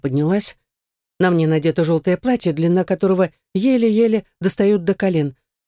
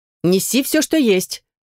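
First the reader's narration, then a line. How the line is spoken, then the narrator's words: Shout. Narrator (Russian): крикнул уходящий горничный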